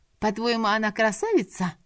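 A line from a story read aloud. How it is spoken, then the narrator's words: Offended snort. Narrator (Russian): фыркнула уязвленная черкешенка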